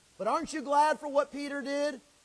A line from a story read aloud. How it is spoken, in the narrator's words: He called out to the Lord